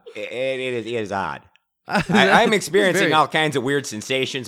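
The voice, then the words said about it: Unstable, wandering put-on accent. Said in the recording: “My accent's all over the map. I don't think I've stabilized”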